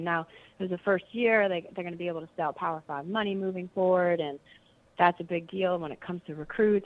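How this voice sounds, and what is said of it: Hoarse, strained voice. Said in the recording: “excuse me, I'm losing my voice here”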